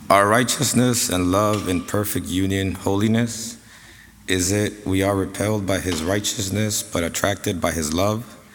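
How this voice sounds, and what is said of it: Sick, rough-sounding voice. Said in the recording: “forgive my voice, I'm a little bit sick.”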